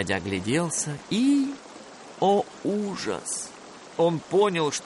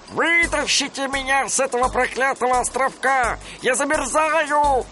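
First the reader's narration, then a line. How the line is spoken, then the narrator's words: Impatient shout. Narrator (Russian): нетерпеливо крикнул им Дональд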